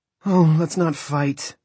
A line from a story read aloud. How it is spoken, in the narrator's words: Maria said miserably